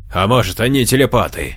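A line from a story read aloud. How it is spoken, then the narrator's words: Chuckling. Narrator (Russian): хохотнул Джованни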